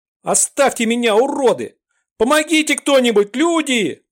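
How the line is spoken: Girl screaming frantically. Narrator (Russian): истошно завопила девушка

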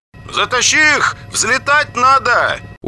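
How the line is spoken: Shouting. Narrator (Russian): голос Максима, который повернулся назад и кричал в грузовую кабину

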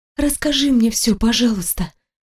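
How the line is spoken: Whispered plea. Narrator (Russian): шепотом попросила я

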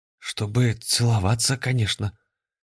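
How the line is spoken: Suddenly hoarse voice. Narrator (Russian): внезапно охрипшим голосом ответил Афанасий

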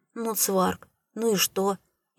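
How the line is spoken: Amused grunt. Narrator (Russian): Видя мое замешательство, хмыкнул

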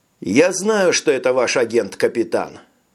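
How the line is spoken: Sighing. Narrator (Russian): вздохнул доктор

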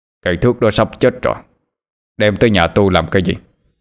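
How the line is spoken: Deep thundering voice. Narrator (Vietnamese): tiếng nói ồm ồm nhưng vang như sấm dậy

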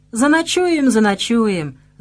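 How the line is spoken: Laughing, jaunty. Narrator (Russian): засмеялся разбитной Лукаш

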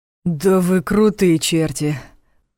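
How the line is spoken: Breathless, almost admiring. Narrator (Russian): Почти восхищенно выдохнул Ваня

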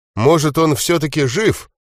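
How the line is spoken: Uncertain question to self. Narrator (Russian): неуверенно спросил Гвидо, сам у себя

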